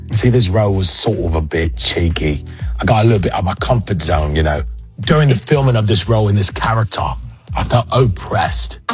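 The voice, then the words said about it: Good put-on Cockney accent. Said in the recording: “That's a good Cockney accent, though, man.”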